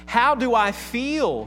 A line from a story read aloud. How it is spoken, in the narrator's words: he cried